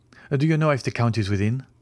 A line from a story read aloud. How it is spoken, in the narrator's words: he said hastily